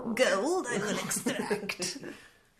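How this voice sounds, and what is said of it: Wizard voice impression. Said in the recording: “it's a great impression of a wizard”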